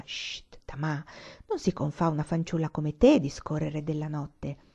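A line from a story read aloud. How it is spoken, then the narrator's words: Smooth, soft voice. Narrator (Italian): la signora Muraki aveva interloquito con la sua voce liscia e sommessa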